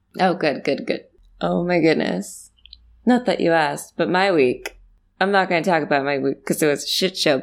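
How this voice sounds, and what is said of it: Weird-sounding strained voice. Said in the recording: “I went to go see a concert last night, which is why my voice sounds weird.”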